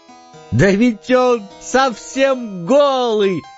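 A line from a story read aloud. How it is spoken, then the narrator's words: Whole crowd shouting. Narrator (Russian): закричал, наконец, весь народ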